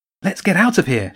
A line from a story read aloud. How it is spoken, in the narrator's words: said urgently